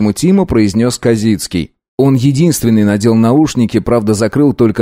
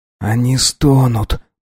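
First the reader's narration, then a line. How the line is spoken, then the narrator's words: Whisper. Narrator (Russian): прошептал Штерн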